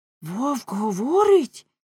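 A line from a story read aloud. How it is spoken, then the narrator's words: Collective exclamation. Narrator (Ukrainian): вигукнули всі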